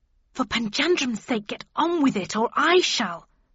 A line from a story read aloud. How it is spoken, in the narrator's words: snapped Mrs